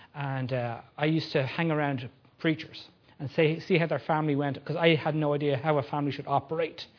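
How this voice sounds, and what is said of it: Non-local accent, possibly Irish. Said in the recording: “I got trained in Ireland. You might tell I have a little bit of a funny accent. I don't come from around here.”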